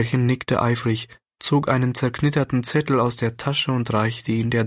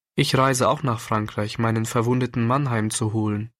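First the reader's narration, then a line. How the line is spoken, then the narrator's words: Plain. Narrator (German): antwortete die Dame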